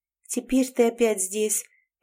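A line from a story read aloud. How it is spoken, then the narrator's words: Sad remark. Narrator (Russian): печально заметила Элизабет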